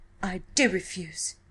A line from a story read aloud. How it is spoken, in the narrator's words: she cried sharply